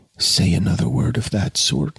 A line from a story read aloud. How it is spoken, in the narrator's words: he whispered